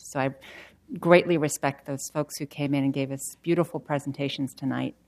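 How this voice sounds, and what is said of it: Non-native English accent. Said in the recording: “I'm an immigrant... I have an accent”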